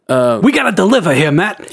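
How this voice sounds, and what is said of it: Exaggerated old New York accent. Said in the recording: “this crappy New York accent from the 40s ... It's similar, but not angry enough.”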